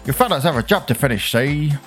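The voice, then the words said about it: Old-timey American accent. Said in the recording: “I want to kind of say that in like an old-timey, I don't know what the right term is, but it's like a very American accent.”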